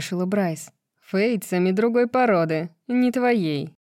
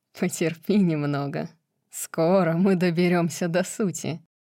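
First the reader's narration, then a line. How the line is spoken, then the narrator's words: Laughing. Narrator (Russian): снова засмеялся Ригелус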